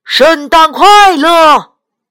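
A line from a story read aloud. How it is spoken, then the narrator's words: Loud. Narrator (Chinese): 大声说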